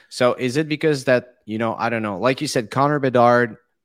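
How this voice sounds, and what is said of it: French Canadian accent. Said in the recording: “is uh, like French Canadian, uh, you know, thing ... my accent”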